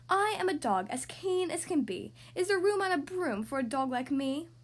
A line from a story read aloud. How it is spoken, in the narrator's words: eagerly said